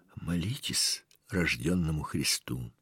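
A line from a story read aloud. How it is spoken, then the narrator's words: Old man's sighing whisper. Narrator (Russian): Старик тоже вздохнул и таким же шепотом сказал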